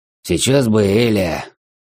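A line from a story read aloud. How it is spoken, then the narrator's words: Heavy sigh. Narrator (Russian): тяжело вздохнув, сказал Дрой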